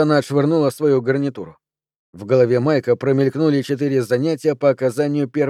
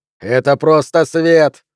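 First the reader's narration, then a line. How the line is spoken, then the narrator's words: Snapping. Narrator (Russian): огрызнулся Олаф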